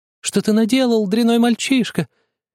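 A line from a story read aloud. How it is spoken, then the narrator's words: Angry shouting. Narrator (Russian): закричала она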